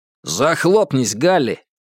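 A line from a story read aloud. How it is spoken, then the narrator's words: Rough bark. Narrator (Russian): грубо рявкнул кто-то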